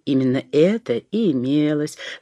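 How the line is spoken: Laughing. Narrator (Russian): засмеялся Илья Петрович

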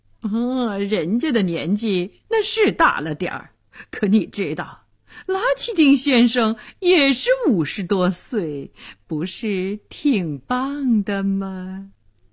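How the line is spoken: Grinning, flippant. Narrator (Chinese): 医生……嬉皮笑脸地说

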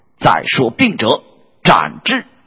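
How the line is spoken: Furious. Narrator (Chinese): 恪大怒曰

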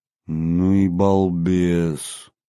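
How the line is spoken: Slow, stunned. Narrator (Russian): медленно проговорил я, совершенно потрясенный

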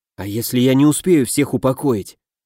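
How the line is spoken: Whispered. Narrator (Russian): прошептал я

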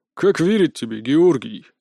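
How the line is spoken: Sighing. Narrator (Russian): вздохнул Потап

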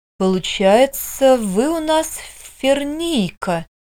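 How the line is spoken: Thoughtful drawl. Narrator (Russian): протянул доктор

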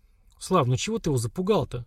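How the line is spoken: Soft interjection. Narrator (Russian): мягко вмешалась Лера

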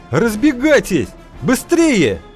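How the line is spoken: Yelling. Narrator (Russian): завопил Кузьма

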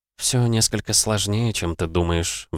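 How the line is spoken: Sighed. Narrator (Russian): вздохнула Канон

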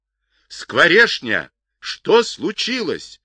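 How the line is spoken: Loud alarmed shout. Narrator (Russian): Громко, с тревогой в голосе закричал он

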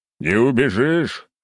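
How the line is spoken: Loud laughter. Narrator (Russian): хохотал я

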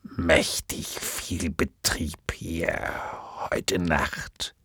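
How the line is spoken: Creaky voice. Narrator (German): sagte er mit knarrender Stimme

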